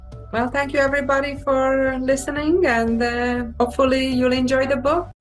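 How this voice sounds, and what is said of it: Heavy foreign accent. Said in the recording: “my accent is too heavy.”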